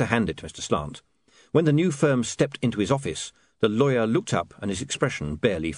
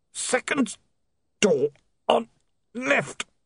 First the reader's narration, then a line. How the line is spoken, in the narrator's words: the man groaned